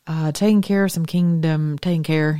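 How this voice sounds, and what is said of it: Put-on Appalachian holler accent. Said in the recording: “I've already got that holler accent down.”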